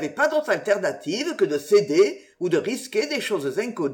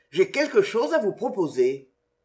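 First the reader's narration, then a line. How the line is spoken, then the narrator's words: Muffled voice. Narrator (French): reprit-il d'une voix sourde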